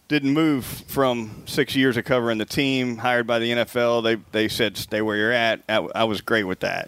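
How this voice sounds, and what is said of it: Genuine Southern American accent. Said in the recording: “to have an actual Southerner feels good ... it's nice to hear a real one”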